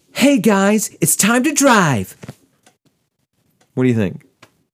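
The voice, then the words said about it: Put-on Californian accent, girlish-sounding. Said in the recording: “you are from Los Angeles, California ... You sound like a girl.”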